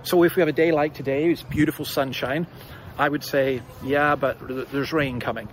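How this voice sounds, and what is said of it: Scottish accent. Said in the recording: “you may have gathered from my accent, I'm not from round here. I'm a Scot”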